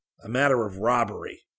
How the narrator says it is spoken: growled Gerald

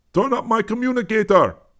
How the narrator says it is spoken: the Connie barked quick instructions

